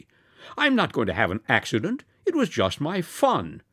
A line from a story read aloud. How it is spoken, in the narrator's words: cried amusedly